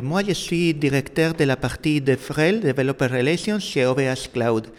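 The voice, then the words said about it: Slight Spanish accent in French. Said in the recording (French): “Le petit accent que vous arriverez à percevoir vient du fait que je suis espagnol”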